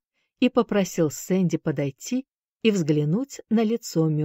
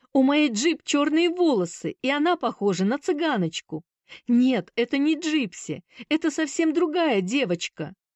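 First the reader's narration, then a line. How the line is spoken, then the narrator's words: Barely suppressed joyful laughter. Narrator (Russian): Он еле сдерживался, чтобы не расхохотаться от счастья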